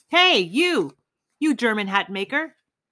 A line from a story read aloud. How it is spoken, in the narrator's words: roared as loud as he could